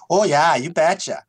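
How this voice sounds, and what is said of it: Put-on Minnesota accent. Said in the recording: “can we get your best Minnesota send-off there?”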